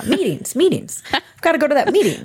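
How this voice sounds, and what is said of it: Impression of a corporate office worker. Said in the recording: “my impression of people who work in like real corporate America.”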